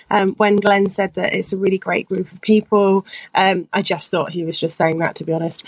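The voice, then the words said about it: A great accent. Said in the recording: “what a great accent”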